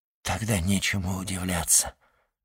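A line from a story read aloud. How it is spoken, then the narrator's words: Whisper. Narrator (Russian): прошептал Дантес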